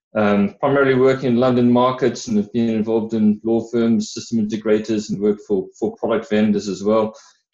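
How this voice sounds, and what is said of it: Hybrid South African-British accent. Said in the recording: “from my accent, you can hear I'm a bit of a hybrid um, sort of 30 odd years in, in South Africa and, and 15 odd in the UK”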